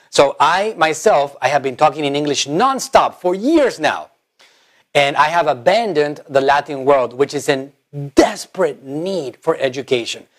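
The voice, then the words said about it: Spanish accent in English. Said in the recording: “my language is Spanish. That's my main language. Obviously, you guys can probably sense the accent.”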